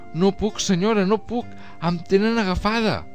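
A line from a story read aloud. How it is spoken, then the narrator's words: Moaning. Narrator (Catalan): la paella va gemegar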